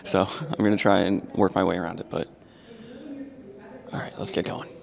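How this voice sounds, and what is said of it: Whispering. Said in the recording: “which is why I'm whispering.”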